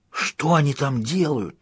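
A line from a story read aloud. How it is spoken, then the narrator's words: Whispered question. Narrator (Russian): шепотом спросил Лобсанг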